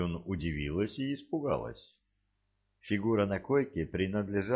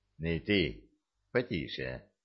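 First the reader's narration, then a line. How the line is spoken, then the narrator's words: Convincing voice. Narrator (Russian): убедительным голосом произнесла Шан Юн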